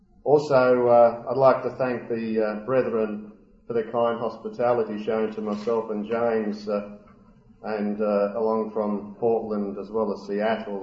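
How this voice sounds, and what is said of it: Accent unusual to North American listeners. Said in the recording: “Now I'm on the opposite side. You all think I've got an unusual accent.”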